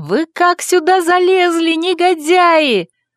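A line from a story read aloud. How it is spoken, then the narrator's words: Squealing. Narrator (Russian): Я с визгом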